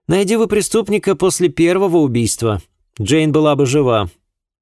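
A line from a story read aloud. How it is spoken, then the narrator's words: Indignant accusing, young man. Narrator (Russian): обвинительным тоном заявил молодой человек, негодующе сверкая глазами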